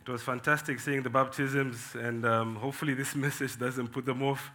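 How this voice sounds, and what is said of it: Voice strained from a cold. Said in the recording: “I'm just recovering from a cold, so if my voice is running away, that's probably the reason”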